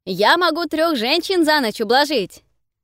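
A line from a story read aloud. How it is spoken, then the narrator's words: Boastful shout, young man. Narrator (Russian): выкрикнул хвастливо юный парнишка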